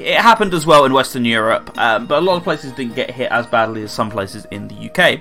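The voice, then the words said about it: Southeast English accent. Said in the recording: “I'm obviously not in Wales, as you can tell by the accent ... I'm in the southeast of England”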